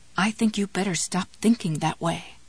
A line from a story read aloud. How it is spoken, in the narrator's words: the goodwife said in a worried tone